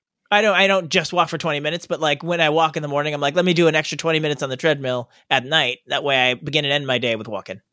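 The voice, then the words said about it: Deliberately bad impression of another person. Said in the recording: “My impression sucks butts ... You got a little Travolta there at the end”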